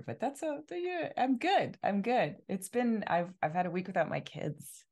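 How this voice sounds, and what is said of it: Slightly rough, hoarse voice. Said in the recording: “I feel like my voice is a little rough today, which everybody can hear”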